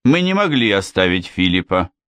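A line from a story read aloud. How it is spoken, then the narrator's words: Gloomy reply. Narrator (Russian): мрачно ответил Ричард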